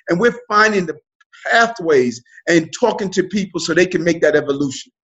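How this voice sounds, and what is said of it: New York accent. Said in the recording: “you're a New York native. I hear it all through the accent.”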